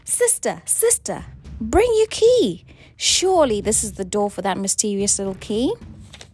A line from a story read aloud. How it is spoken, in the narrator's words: One cried